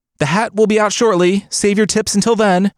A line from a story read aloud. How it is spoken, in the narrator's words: called out